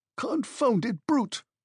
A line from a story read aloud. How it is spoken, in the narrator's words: cried the unhorsed horseman, suddenly degraded into a pedestrian, just as ashamed as a cavalry officer degraded to a foot soldier